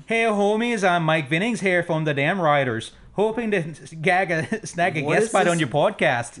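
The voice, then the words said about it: Put-on Canadian accent. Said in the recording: “What is this weird fucking Amish? ... he'll speak like Canadians ... That's my impression ... I like the Canadians.”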